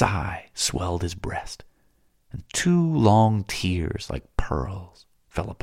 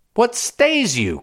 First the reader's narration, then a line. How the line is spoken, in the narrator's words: cried Spendius